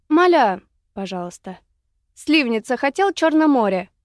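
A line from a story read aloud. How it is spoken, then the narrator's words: Breathless, very agitated blurt. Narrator (Russian): с придыханием, страшно волнуясь, выпалила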